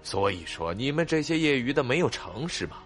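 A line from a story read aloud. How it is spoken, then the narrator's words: Sighing resignedly. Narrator (Chinese): 勇者无敌摇头叹气道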